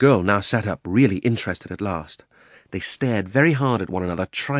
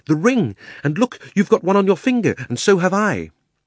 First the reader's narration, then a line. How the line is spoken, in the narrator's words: cried Diggory